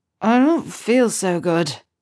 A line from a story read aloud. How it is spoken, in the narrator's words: James slurred, tongue lolling as though it were too heavy in his mouth